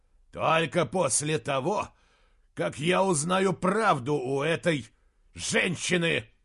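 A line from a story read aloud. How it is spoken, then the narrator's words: Growl. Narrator (Russian): прорычал Джошуа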